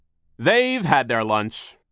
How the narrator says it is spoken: came a booming voice

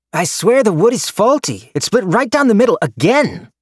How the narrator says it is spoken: I heard Yunjin's raised voice exclaim from outside

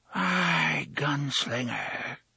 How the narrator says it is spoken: breathed

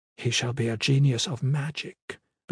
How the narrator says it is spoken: Ben Haydad said quietly, as if quoting something

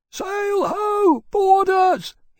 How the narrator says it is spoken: he bellowed out

